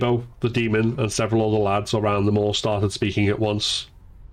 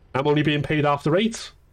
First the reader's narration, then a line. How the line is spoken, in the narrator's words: the demon said